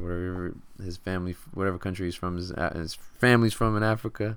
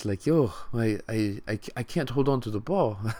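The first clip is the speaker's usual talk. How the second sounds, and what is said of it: Bad Nigerian Greek accent impression. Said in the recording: “my horrible, like, accent. Like, Nigerian Greek accent”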